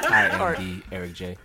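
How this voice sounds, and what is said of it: Dull voice imitating another person. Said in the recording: “do the Eric voice ... I'm trying to sound dull as fuck.”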